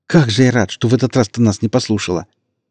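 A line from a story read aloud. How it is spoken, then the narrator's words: Joyful babbling. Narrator (Russian): Экс радостно залепетал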